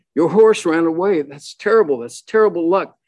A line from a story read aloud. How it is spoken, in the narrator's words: their neighbors exclaimed